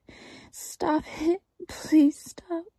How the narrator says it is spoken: I pleaded

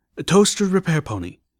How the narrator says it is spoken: Hastily, I offered

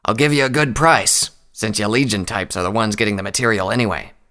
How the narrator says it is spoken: peddler rasped

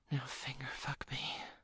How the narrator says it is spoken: whispered

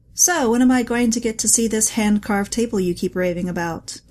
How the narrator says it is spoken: James asked

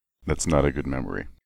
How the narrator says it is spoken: Steelhooves rumbled

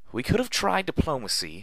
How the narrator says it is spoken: Velvet cried out as she ran for her life

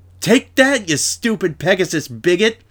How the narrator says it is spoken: yelled at her from below

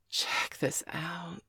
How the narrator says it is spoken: whispered

